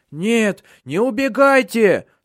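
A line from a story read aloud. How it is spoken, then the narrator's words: Fat man whining. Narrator (Russian): скулил толстый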